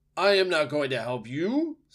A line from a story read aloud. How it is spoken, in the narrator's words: screeched the owl from the very top of the tree